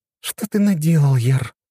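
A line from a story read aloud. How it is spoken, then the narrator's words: Sighing. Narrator (Russian): вздохнула Настя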